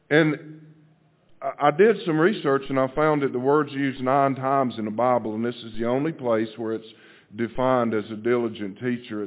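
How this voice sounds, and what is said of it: Deep Southern US accent. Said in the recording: “as deep a southern accent as I have”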